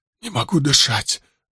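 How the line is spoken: Strained, choking out. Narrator (Russian): выдавил он

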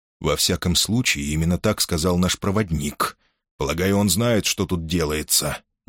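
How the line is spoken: Quiet. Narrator (Russian): негромко ответил Шонберг

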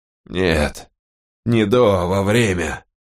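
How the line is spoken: Breathed out. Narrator (Russian): выдохнул Доффер

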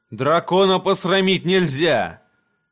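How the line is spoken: Distant laughing declaration. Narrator (Russian): Принц Эйрион в отдалении засмеялся и заявил

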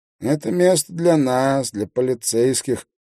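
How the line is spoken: Nasal voice. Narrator (Russian): прогнусавил стоящий рядом

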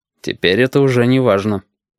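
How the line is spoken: Dry reply. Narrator (Russian): сухо отозвался Крас

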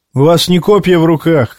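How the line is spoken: Shouting. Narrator (Russian): крикнул

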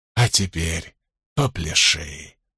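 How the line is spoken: Whispered. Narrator (Russian): прошептал Линч

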